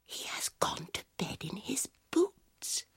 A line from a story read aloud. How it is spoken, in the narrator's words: whispered Peter